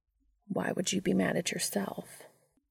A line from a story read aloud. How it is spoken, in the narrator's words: Dean sighed